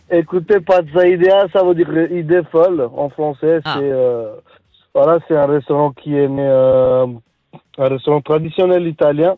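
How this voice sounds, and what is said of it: Speaks French with a foreign accent. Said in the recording (French): “Ah, déjà l'accent”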